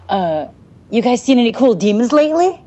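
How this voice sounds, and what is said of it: Imitates another person's voice. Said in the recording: “That was my David impression.”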